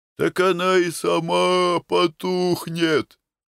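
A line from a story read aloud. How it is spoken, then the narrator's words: Sleepy croak. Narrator (Russian): отвечает сонным хрипом Галатенко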